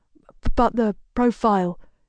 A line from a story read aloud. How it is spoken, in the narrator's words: he stutters, looking as though he might cry